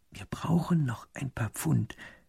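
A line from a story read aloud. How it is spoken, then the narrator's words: Whispered aside. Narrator (German): flüstert der zweite Minister dem ersten zu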